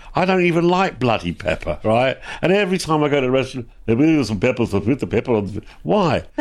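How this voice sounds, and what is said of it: Put-on Polish Italian accent. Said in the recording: “That's not Italian accent. ... It's a Polish Italian accent.”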